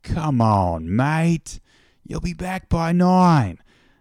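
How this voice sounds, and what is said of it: Put-on foreign accent, imperfect attempt. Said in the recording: “I'm sorry if this accent isn't working out, but I'm going to try my best with it.”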